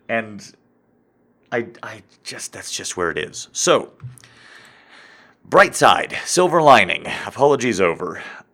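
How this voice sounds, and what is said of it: Congested, nasal voice with sniffles. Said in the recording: “the congestion you're hearing in my voice ... I think this is a cold. I think this is legitimate sniffles.”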